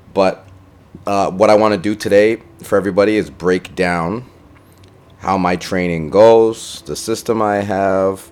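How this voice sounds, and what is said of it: Tired, low-energy voice. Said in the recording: “I'm a little tired. I sound a little tired. ... I'm going to be a little lower energy today”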